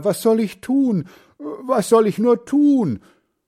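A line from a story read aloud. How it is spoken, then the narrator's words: Grandfather lamenting. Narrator (German): jammert Großvater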